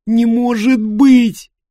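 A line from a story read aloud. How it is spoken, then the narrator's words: Sobbing. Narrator (Russian): всхлипывала Эллен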